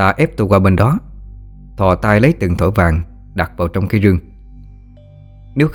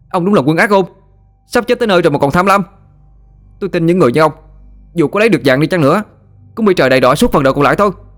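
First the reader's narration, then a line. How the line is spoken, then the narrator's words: Boy shouting angrily. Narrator (Vietnamese): Mặt mày thằng bé bỗng đỏ phừng phừng, hét thẳng vào mặt Lão Tam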